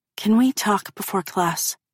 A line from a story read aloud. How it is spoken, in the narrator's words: she whispers